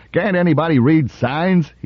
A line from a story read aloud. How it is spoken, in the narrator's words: he yelled